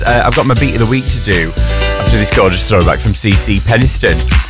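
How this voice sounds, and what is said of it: Northern English accent. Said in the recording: “if you can tell by my accent, I'm not exactly against the idea of more northern things”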